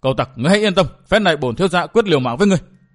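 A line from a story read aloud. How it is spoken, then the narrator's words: Reckless loud shout. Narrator (Vietnamese): đánh liều quát to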